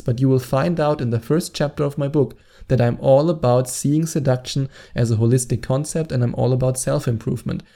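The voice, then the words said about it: German-accented English. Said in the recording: “my annoying German accent”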